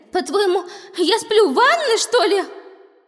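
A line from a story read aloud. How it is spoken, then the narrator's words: Stunned exclamation. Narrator (Russian): Ошеломленно воскликнула Эмилия, получив столь нелестное замечание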